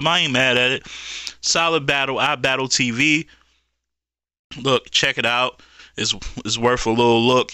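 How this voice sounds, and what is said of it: Strained, fading worn-out voice. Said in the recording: “My voice is going out. I've been talking all week, man. ... So, I'm tapped out.”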